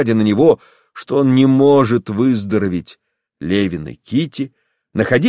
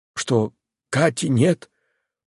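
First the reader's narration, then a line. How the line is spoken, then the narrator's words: Hoarse rasp. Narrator (Russian): прохрипел он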